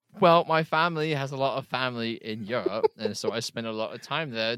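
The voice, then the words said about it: British accent. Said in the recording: “I'm actually not from the UK. I just adopted the accent from traveling. ... It is about your accent.”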